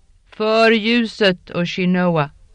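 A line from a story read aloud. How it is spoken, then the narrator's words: Roared by many voices. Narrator (Swedish): vrålet ur flera strupar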